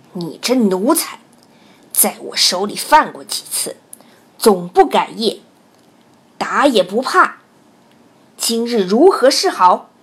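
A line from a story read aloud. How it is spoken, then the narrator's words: Angry. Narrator (Chinese): 知县怒道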